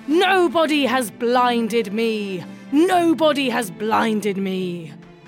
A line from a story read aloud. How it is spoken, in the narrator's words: between his whimpers and his wails, Polyphemus roars